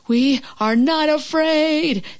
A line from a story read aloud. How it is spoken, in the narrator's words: screamed Frog and Toad at the same time